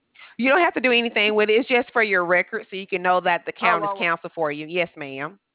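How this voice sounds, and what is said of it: Southern Alabama accent. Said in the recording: “You have a darling accent ... I'm from Alabama ... I figured it was somewhere down there”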